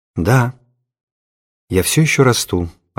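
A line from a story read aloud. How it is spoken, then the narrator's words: Sad, smiling reply. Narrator (Russian): ответила она, грустно улыбаясь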